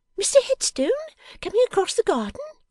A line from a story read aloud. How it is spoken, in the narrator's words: exclaimed, with a flushed glance at the looking-glass